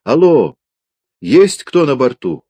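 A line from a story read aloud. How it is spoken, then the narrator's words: Shouted down from above. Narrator (Russian): сверху вниз крикнула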